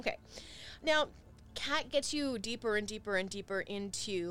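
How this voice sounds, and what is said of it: Usual voice. Nothing is said of it.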